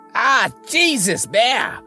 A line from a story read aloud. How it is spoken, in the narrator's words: I shouted over the crashing